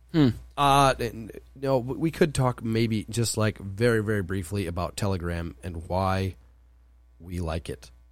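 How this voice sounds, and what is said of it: Hoarse, strained voice. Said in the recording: “My voice turned into Jason's voice today... losing my voice”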